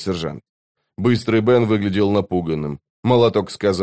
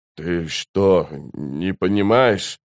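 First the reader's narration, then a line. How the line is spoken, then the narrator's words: Trembling voice. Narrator (Russian): дрожащим голосом проговорил Быстрый Бен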